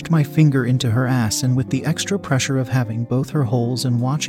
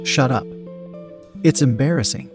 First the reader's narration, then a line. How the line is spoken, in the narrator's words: She laughed and said